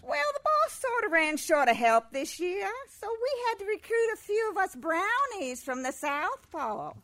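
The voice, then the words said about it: Southern accent. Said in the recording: “with a southern accent”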